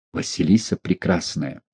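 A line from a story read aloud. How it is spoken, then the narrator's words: Whisper. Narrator (Russian): шепнул Астахов Лунину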